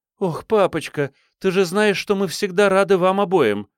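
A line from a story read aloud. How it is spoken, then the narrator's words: Pleading. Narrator (Russian): взмолилась Хейзел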